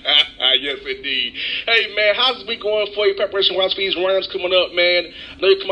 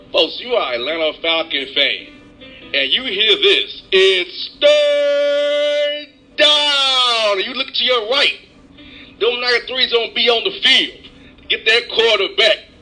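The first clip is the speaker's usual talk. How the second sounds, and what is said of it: Stadium PA announcer voice. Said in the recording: “I do a good job with a PA guy, man. I do a good impersonation stuff”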